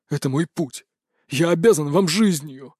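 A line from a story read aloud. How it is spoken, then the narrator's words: Strained wheeze while dangling. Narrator (Russian): прохрипел он, болтыхая ногами в воздухе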